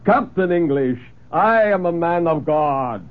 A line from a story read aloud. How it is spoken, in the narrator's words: he roared